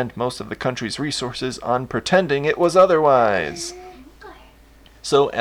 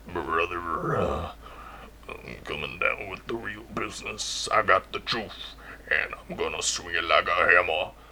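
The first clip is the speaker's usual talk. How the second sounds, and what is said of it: Randy Savage impression. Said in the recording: “impersonating Randy Savage”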